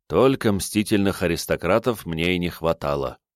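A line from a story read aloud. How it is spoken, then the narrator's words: Sighed. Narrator (Russian): вздохнул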